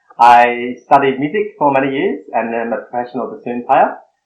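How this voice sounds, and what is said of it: Australian accent. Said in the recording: “I live in Brisbane, Australia, which is why I have this accent”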